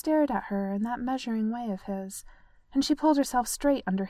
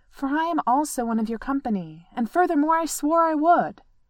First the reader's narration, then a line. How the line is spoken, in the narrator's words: said firmly